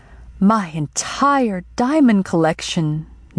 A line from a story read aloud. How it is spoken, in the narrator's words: Yang exclaimed